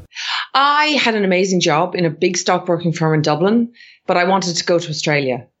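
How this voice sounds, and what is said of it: Irish accent. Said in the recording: “working in Ireland, where your accent and your body comes from”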